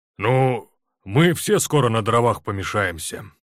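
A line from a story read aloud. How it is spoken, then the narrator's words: Grumbling. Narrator (Russian): проворчал он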